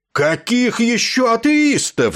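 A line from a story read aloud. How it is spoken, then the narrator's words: Roared. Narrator (Russian): взревел полковник Кошкарт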